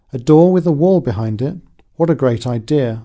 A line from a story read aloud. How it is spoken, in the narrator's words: exclaim